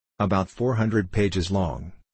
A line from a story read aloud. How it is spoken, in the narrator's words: said the idiot